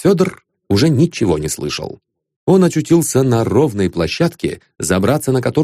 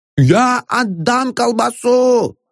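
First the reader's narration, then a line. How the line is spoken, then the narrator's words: Shouting. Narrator (Russian): закричал отец Федор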